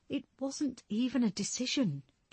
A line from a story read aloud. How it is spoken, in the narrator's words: Julia said, over the second chorus of mumbled agreement